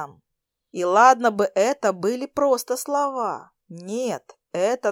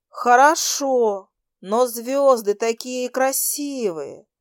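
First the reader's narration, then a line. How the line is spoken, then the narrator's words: Girl's dreamy sigh. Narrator (Russian): Мечтательно вздохнула девушка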